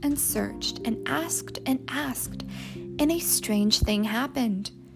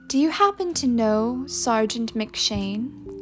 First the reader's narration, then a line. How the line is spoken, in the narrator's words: Katie asked